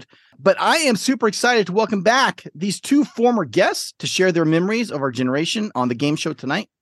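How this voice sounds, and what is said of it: Sick, slightly off-sounding voice. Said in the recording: “something sounds a little weird about your voice... I'm feeling a little under the weather today, so please excuse my voice”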